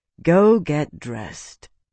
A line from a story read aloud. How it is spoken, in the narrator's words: Isana said wearily